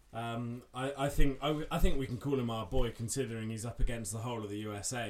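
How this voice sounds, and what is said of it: Southern English accent. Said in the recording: “we are Southerners... been able to tell from our accent”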